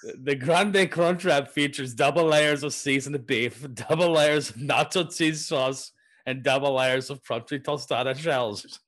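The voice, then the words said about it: Attempted Russian accent. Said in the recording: “I'm gonna do my best Russian accent. ... That's Afghanistan.”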